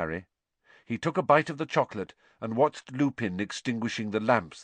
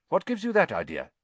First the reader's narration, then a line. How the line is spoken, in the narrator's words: he said sharply